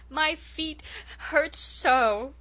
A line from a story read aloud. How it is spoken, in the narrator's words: sobbed Rilla, clinging to the last shred of her pride